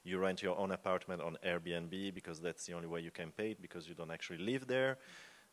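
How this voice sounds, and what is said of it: Speaking very fast. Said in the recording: “I'm talking too fast.”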